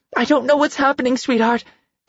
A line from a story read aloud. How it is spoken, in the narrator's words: Carmen shouted